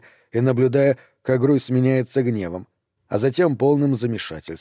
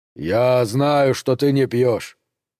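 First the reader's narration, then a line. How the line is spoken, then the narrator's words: Low, imposing voice. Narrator (Russian): низким внушительным голосом проговорил Маркус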